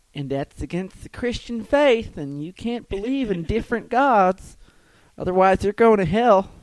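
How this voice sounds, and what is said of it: Church lady character voice. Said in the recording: “my church lady impression”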